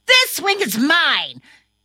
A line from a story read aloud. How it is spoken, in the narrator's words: he got angry and yelled